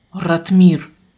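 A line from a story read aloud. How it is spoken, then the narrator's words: Man growling. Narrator (Russian): зарычал мужчина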